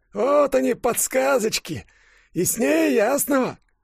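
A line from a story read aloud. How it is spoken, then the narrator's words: Barely audible, suppressed joy. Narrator (Russian): Кулькин бормотал едва слышно, но глубоко внутри кричал от радости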